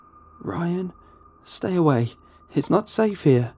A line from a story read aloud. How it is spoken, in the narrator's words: she begged